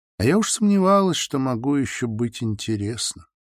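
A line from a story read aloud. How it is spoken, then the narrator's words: Soft, gentle. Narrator (Russian): мягко проговорила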